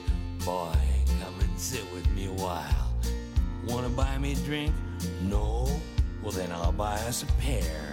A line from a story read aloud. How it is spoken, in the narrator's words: in a whiskey whisper she said